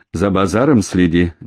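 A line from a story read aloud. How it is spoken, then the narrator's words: Displeased grumbling. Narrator (Russian): недовольно проворчал Болтун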